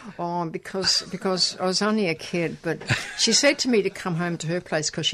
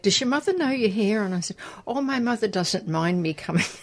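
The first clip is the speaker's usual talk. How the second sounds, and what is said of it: Put-on Irish accent. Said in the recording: “In your best Irish accent there.”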